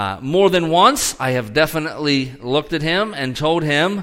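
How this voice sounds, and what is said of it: Usual voice. Nothing is said of it.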